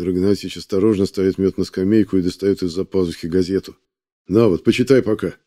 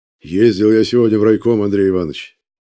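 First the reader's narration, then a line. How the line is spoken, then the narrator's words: Joyful chairman. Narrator (Russian): радостно говорит председатель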